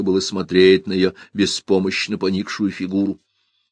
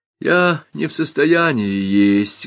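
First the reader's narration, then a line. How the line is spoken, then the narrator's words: Sorrowful whimper. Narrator (Russian): горестно захныкала Тереза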